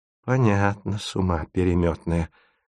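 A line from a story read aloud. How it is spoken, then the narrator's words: Through gritted teeth. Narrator (Russian): цедит сквозь зубы герцогиня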